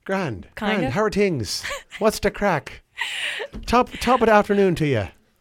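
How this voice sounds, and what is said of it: Put-on Irish accent. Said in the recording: “doing an Irish accent, a Boston Irish”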